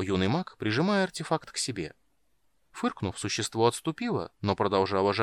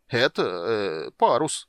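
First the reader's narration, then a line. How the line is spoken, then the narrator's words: Mumbling. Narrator (Russian): промямлил Дуган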